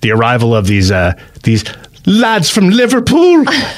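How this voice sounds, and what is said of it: Poor but passable put-on accent. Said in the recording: “That's not a good accent, but it's close enough”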